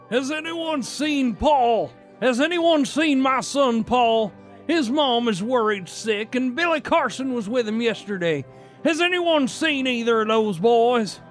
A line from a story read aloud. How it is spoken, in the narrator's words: Orrin Perdue pushed open the door of the church, walking briskly through the crowd, and he called out